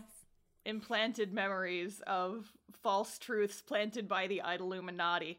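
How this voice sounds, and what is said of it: Usual voice. Nothing is said of it.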